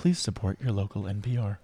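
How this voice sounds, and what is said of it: Public radio announcer voice. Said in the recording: “that was my NPR voice ... That was a good NPR voice ... that's how they all talk”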